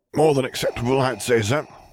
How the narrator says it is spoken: grunted

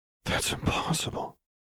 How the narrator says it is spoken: Lux muttered

